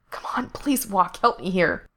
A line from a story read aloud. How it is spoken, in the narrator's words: Frank whispered frantically